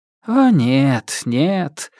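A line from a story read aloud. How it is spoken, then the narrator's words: Sad sigh. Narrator (Russian): самурай грустно вздохнул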